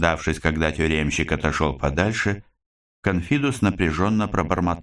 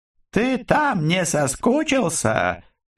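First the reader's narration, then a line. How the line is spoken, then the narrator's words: Cheerful call from afar. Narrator (Russian): весело донеслось издали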